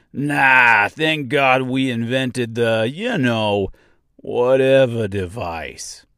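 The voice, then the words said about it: Bad put-on New York accent. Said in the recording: “a bad New York accent”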